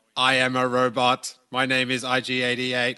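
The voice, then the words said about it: Robot voice. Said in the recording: “doing a robot voice”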